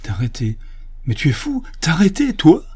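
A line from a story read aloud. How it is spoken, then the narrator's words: Desperate pleading. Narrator (French): Elle eut une explosion de désespoir elle suppliait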